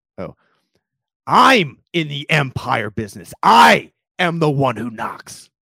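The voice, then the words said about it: Walter White impression. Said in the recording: “You know, you had the Jigsaw impersonation last week ... You're back.”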